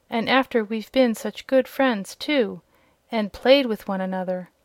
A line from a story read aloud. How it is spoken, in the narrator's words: exclaimed a piglet